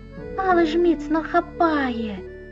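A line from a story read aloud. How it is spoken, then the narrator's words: Excited small child's exclamation. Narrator (Ukrainian): захоплено вигукнула маленька М'ю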